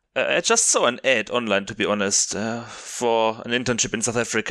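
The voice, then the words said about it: Non-native English accent. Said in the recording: “you can still hear my accent”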